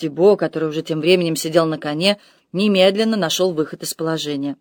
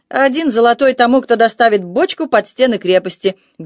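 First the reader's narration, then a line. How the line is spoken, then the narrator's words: Loud proclamation. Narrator (Russian): громко возвестил он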